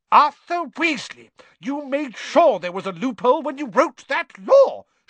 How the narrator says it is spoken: shouted Mrs

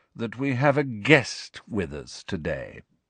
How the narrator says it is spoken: said Snape, in his low, sneering voice

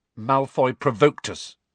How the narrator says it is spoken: said Harry stiffly

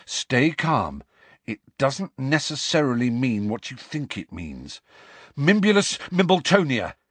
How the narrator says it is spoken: he gasped at the fat lady

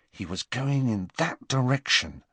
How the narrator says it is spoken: murmured Harry as quietly as possible, so that the humming Hagrid would not hear them

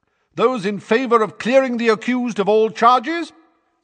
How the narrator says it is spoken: said Madame Bones's booming voice

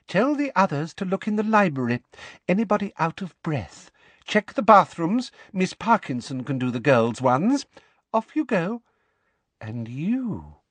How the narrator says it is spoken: she added in her softest, most dangerous voice

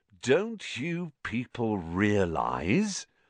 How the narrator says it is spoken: said Lockhart, speaking slowly, as though they were all a bit dim

